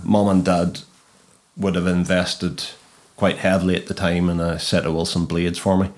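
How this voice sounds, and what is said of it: Distinctive regional accent. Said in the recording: “I can tell you still got your accent... Graham McDowell's accent, I love it.”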